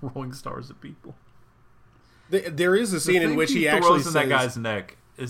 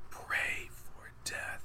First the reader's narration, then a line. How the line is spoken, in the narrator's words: he whispers to the guy